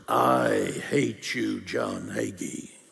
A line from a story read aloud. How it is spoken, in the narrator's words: She was hissing at me like a snake, said in a deep masculine voice